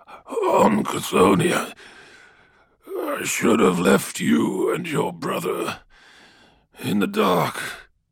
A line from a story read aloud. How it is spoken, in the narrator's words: slurred Malachurst